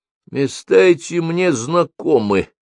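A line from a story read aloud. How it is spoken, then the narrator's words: Hoarse wheeze. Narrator (Russian): прохрипел Цыпа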